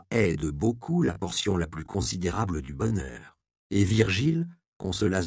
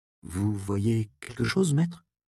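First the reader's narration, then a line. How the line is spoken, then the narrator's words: Timid curious question. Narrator (French): demanda timidement l'apprenti, dont la curiosité était de plus en plus aiguisée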